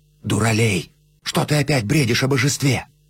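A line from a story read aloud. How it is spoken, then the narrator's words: Whispered. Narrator (Russian): Люсьен шепотом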